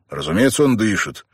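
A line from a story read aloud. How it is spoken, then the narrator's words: Slightly irritated objection. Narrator (Russian): немного раздраженно возразил Бен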